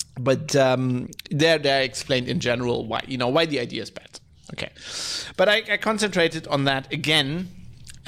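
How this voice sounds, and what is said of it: Congested, allergy-affected voice. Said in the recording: “my voice is allergies again. Worse, obviously, hay fever.”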